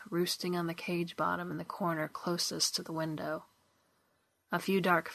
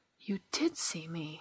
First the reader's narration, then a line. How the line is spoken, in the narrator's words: she gasped